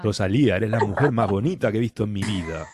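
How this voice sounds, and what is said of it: Put-on Argentine-sounding accent. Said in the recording (Spanish): “es que no sé hacer el acento ... te sale argentino ... en otro tiempo yo lo he interpretado mejor, pero hace mucho que no practico”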